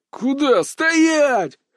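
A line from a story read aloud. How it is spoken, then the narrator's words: Many voices yelling. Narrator (Russian): Заорали сразу несколько голосов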